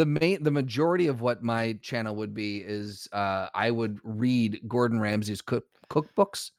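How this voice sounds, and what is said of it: Usual voice. Nothing is said of it.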